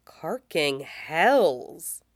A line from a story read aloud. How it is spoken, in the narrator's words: Echo mutters, from right at his back, quiet and unsettled